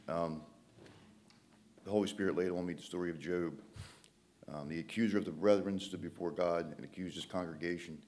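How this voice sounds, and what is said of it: Congested, stuffy-nosed voice. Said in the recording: “my nose is running, I have a cold”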